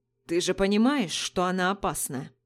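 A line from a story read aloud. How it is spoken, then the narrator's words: Rough male voice. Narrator (Russian): грубо произнес мужчина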